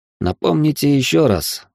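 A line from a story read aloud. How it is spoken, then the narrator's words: Sighing. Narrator (Russian): вздохнул я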